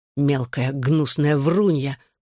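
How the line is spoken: Growling. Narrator (Russian): прорычал

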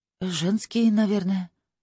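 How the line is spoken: Uncertain. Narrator (Russian): неуверенно сказала

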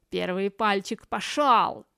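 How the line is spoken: Barked shout. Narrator (Russian): гаркнул он

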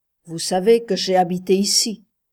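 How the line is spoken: Hard, deliberately wounding voice. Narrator (French): commença d'une voix dure, comme pour le blesser exprès

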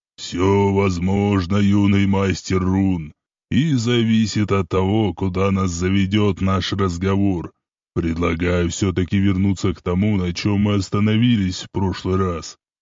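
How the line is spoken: Calm, warm. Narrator (Russian): ответил спокойным и располагающим голосом Исмаил

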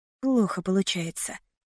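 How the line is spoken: Muttered. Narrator (Russian): пробормотала

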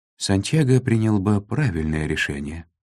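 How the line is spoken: Calm advisor. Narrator (Russian): спокойно заявил правый советник

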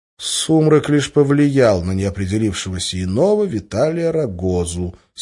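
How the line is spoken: Plain. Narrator (Russian): сказал Гессер

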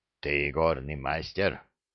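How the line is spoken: Sudden hoarse question. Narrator (Russian): внезапно спросил хриплым голосом Урухай

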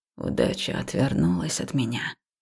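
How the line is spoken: Quiet, growing agitated. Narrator (Russian): начал король тихо, но с каждым словом его голос становился все более взволнованным

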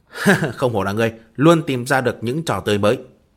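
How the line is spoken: Loud laughter. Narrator (Vietnamese): Hách Minh Chí ha ha cười lớn

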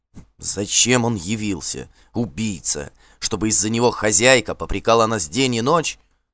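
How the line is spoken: Excited hissing, two voices. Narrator (Russian): возбужденно шипели Лодден и Вадмель

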